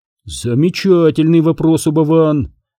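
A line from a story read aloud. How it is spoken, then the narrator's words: Exclaiming. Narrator (Russian): воскликнул Гуэра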